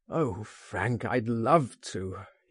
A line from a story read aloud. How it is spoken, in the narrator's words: he groaned